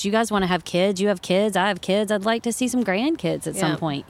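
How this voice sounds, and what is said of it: Southern Virginia twang. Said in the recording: “I hear the twang. ... Do you hear this twang? ... It comes out. ... Roanoke, Virginia”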